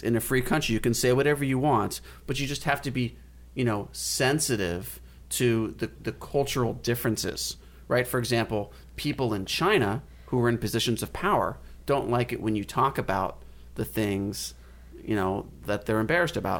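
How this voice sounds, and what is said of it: Obnoxious imitation of another person's voice. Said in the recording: “I don't know how you managed to sound so obnoxious when you said that, but it was a skill ... It was a very good impersonation ... I was trying to imitate what's his name from the NBA ... I was trying to do an impression of Adam Silver”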